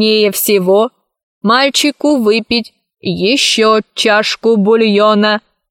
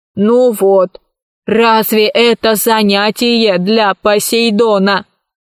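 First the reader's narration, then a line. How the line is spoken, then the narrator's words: Grumbling. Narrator (Russian): проворчал робот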